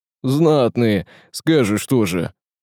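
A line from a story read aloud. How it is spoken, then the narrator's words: Elder's chuckle. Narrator (Russian): хохотнул староста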